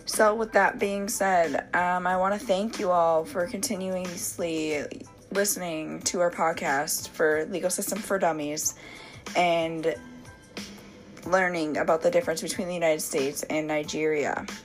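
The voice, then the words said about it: Raspy, hoarse sick voice. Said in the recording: “this raspy voice of mine as I have been sick the last few days”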